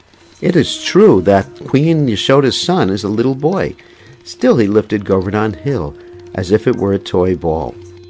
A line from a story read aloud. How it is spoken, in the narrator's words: Kundalata in a low voice says